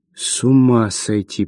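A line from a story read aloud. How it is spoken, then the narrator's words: Drawn-out drawl. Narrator (Russian): протянул он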